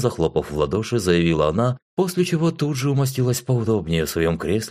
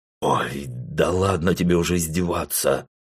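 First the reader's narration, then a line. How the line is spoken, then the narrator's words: Sullen grumble. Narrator (Russian): Хмуро буркнул я в ответ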